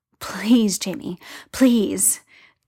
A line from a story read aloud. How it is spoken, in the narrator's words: Tyler pants, half mindless with it all